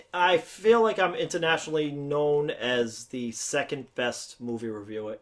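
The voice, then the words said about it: Thick Boston accent. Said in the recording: “You're actually just a little twinge away from the Australian accent, but you have a very thick Boston accent.”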